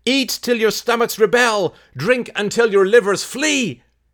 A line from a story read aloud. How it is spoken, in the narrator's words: she cried